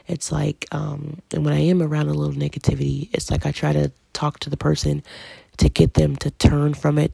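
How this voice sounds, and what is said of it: Deep, tired voice. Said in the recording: “my voice is getting a little bit deep. I notice sometimes it does that when I get tired.”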